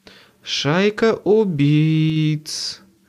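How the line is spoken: Drawled. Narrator (Russian): протянула Мёрфи

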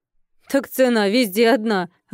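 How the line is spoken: Laughing. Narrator (Russian): рассмеялась Тася

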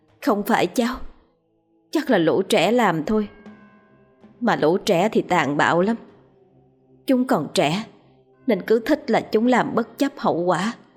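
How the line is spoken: Sighing. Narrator (Vietnamese): Vong cô Hương thở dài

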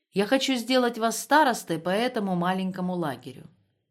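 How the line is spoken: Plain. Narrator (Russian): сказал Лаптев

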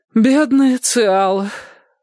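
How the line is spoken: Sighing. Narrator (Russian): вздохнула тетушка

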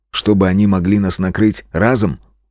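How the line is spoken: Wry snort. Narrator (Russian): хмыкнул я

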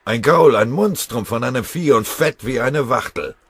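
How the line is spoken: Bellowing. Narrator (German): brüllte

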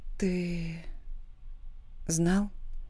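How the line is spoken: Quiet question. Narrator (Russian): спрашиваю тихо

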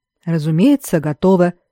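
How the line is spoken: Calm. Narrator (Russian): спокойно сказал Дарра

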